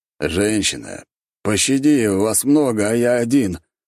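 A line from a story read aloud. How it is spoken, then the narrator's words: Doomed moaning. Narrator (Russian): простонал я, чувствуя обреченность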